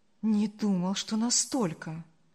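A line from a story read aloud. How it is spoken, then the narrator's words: Sighing. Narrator (Russian): вздохнул Марк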